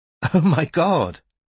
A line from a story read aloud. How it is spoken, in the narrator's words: Kiara giggled